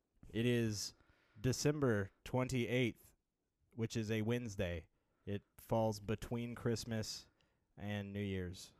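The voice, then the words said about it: Robotic announcer voice. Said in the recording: “in that robot voice”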